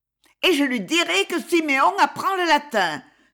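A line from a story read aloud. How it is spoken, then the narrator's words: Exasperated exclamation. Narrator (French): s'écria-t-il exaspéré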